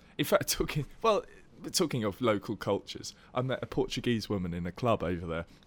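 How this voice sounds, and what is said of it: Usual voice. Nothing is said of it.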